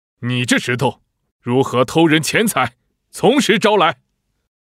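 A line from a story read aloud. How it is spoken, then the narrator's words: Shout. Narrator (Chinese): 包拯大喊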